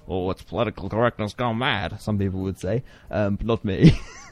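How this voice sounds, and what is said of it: Old-fashioned 1920s newsman impression. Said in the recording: “What kind of impression was that? ... Newsman from the 1920s ... I guess it would be like a newspaper man ... It wasn't very good ... So inaccurate.”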